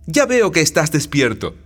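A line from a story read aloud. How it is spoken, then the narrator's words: Exclaiming. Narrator (Spanish): Rasumijín exclamó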